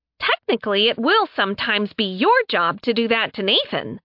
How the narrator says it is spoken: Sen chirped

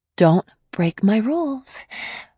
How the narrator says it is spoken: I said, trying to sound playfully stern like he did to me, but it came out anxious

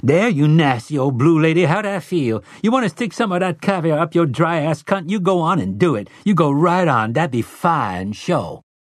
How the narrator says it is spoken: ghoulish Detta Walker snarl, and she might scream

